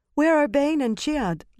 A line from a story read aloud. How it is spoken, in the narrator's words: Lasile asked anxiously